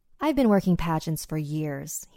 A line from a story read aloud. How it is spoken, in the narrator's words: he said